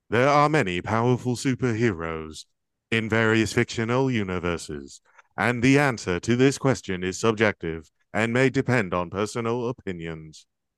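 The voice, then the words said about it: Robotic voice. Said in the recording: “in a robot voice ... this is my robot voice”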